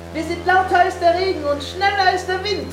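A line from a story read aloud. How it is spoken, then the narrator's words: Called into ear, laughing. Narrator (German): rief Winnie Herrn Wundersam ins Ohr und lachte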